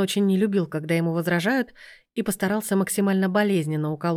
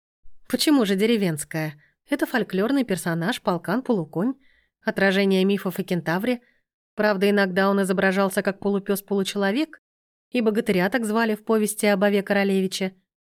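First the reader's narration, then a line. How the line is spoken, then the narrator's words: Gentle, smiling. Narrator (Russian): мягко улыбнулась Лена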